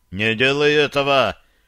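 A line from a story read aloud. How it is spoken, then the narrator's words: Frightened shout. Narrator (Russian): крикнул Шарли, бледнея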